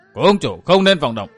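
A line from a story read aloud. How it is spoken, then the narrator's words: Sudden sharp shout. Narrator (Vietnamese): bỗng có tiếng quát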